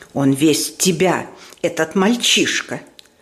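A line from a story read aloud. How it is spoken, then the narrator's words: Hiss. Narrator (Russian): прошипела мадам Резо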